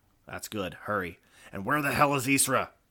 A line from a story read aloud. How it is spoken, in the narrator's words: Her voice snapped in his ear